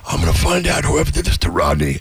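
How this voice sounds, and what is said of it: Smoky, sexy male voice. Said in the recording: “He speaks with this very smoky voice ... sexy voice”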